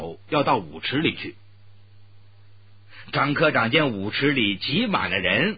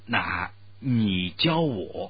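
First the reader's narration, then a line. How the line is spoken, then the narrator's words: Slow drawl. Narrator (Chinese): 他慢吞吞的说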